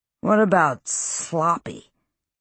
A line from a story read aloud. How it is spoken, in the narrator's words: said Peter Hewson, slurring his words